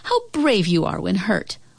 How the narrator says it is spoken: Mother cried

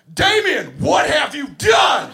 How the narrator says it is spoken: at the top of my lungs, I yell

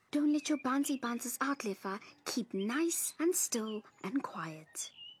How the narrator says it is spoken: Tumelo whispered

